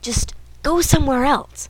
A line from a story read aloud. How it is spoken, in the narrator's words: Dean hissed